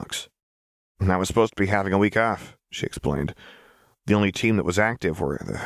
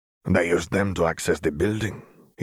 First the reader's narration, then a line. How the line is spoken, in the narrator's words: he grumbled to himself